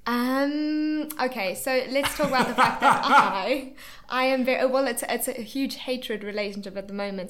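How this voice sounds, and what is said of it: South African accent. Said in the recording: “you're South African ... Everyone usually loves my accent ... Maybe it's just my twang”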